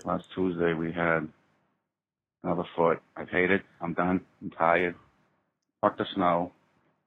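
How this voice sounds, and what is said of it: Boston accent. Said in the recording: “I love his accent. ... he's from Boston, right? ... Yeah. Somewhere like, he's like wicked north. ... we love the voice.”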